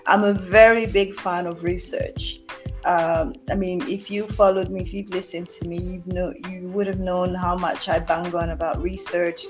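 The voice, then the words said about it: Congested voice with a cold, sniffling. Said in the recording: “I've got a cold, so you're gonna hear some sniffles throughout this video.”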